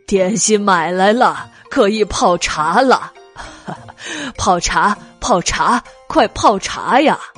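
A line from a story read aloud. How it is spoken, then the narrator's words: Laughing. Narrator (Chinese): 白姬笑着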